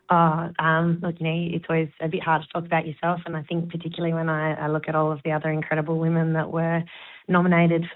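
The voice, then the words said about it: Raspy, hoarse voice. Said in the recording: “she's got a bit of a frog in the throat ... I'm not usually this raspy”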